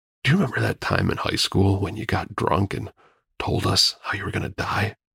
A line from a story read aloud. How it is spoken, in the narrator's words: he practically whispered